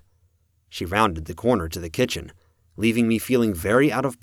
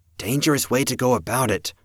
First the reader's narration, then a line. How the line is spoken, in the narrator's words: Rose said, just under her breath